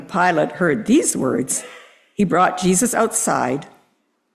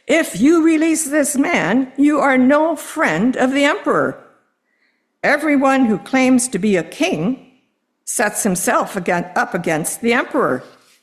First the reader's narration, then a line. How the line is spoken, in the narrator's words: the crowd cried out